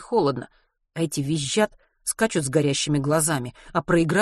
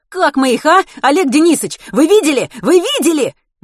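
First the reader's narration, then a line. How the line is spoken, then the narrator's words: Excited children shouting. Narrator (Russian): Возбужденно закричали семиклассники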